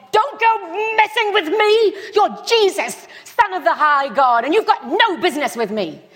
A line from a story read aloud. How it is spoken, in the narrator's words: he screamed and he said